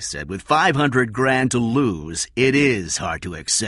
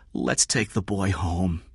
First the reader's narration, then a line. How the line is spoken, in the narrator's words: Kathy said softly